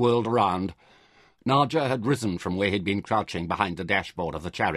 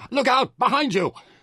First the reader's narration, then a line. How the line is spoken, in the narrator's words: Merin shouted an urgent warning